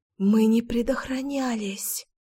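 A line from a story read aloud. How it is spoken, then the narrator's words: Whisper. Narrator (Russian): прошептала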